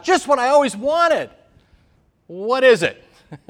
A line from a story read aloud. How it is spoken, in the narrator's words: she excitedly tore open a package on Sunday morning and she shouted out